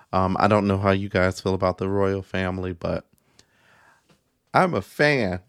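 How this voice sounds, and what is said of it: Sleepy, not-awake voice. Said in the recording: “my voice sounds a little, not awake”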